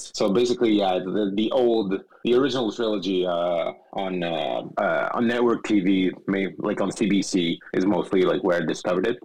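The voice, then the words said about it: French-speaker's accent in English. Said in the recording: “In French, as you can tell from my accent.”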